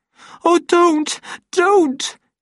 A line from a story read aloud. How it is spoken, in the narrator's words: begged in a voice which trembled from the shaking